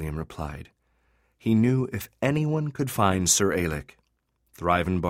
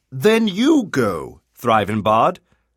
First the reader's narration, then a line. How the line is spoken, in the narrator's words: Kalium exclaimed